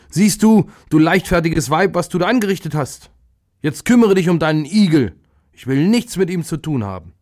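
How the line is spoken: Angry shout. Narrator (German): Da ärgerte sich der Viehhirt und rief

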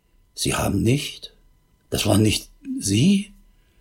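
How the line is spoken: Barely audible distraught stammer. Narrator (German): völlig aus der Fassung und stammelte kaum hörbar

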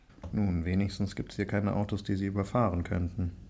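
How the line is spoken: Murmuring. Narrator (German): murmelte Viktor

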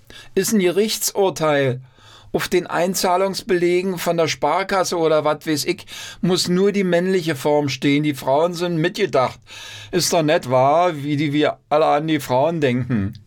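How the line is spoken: Young man interrupting loudly. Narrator (German): Ein gebildeter junger Mann rief dazwischen

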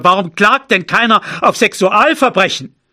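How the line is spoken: Father shouting. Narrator (German): schrie mein Vater

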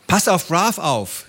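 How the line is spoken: Call. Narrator (German): rief sie Baba zu

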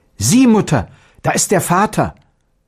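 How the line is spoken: Exclaimed. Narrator (German): rief aus

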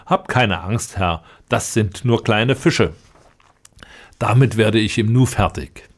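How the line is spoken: Laughing, confident. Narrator (German): der Dickbäuchige lachte und sprach

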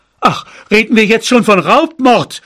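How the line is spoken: Father shouting. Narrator (German): schrie mein Vater

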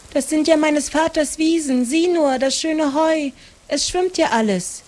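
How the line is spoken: Call. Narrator (German): rief Maren

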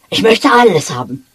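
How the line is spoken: Lively exclamation. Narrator (German): rief er lebhaft

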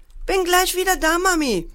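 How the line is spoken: Called out. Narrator (German): rief Paul

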